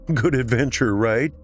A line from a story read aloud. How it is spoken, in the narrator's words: He said as he worked, punctuating the words with nervous laughter